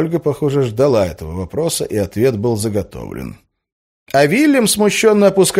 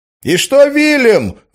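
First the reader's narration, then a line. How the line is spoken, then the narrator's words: Shout from audience. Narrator (Russian): выкрикнул кто-то из зала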